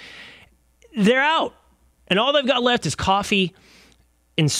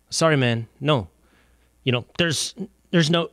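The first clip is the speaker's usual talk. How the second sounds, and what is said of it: Put-on accent imitating a store clerk. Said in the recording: “did I do an accent? I did do an accent”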